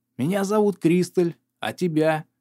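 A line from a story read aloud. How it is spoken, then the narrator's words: Hoarse woman's wheeze. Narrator (Russian): прихрипела карикатура на женщину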